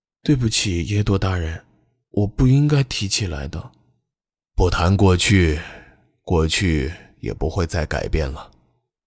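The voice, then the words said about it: Speaking softly, quiet voice. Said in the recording (Chinese): “小声念道”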